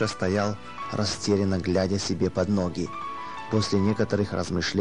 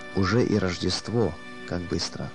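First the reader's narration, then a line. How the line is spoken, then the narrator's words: Trembling voice. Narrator (Russian): дрожащим голосом он проговорил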